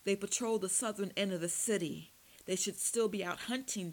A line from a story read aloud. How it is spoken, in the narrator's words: Tim wheezed